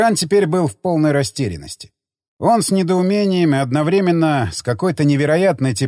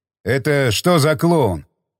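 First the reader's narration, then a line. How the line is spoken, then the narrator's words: Confused question. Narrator (Russian): растерянно спросил Тигран у Буркова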